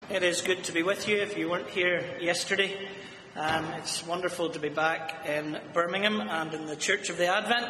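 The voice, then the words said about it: Speaks with a noticeable foreign accent. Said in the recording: “you can tell already about the accent. ... What are the three words I say that you find the most humorous, the way I say them? My friend says I say all the right vowels, just in all the wrong order.”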